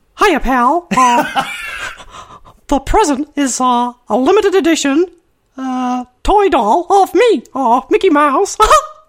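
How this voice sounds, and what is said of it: Mickey Mouse cartoon voice. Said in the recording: “Do the voice ... You should be in a cartoon.”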